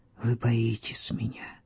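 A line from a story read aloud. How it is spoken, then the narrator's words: Whispering. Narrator (Russian): шептал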